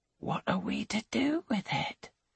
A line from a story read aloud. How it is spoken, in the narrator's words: she whispers